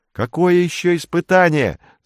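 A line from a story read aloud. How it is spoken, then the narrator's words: Yelling. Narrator (Russian): заорал он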